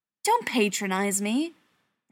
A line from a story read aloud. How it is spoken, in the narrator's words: Brendan snapped